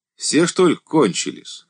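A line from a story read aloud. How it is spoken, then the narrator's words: Guffawing. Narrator (Russian): хохотнул охранник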